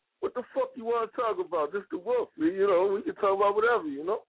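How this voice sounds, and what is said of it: Strong New Jersey accent. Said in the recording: “Do you hear that accent? ... I'm from Jersey”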